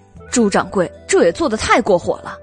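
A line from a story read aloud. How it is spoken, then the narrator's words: Angry. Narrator (Chinese): 袁耀愤怒的说道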